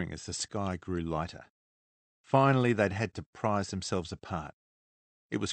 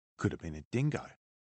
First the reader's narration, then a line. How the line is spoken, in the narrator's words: Nathan said, his voice low